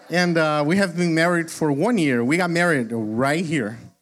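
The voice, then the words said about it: Brazilian-accented English. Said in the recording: “the accent is real. I'm not faking it. I wish I was. It is a real accent. ... I am originally from Brazil”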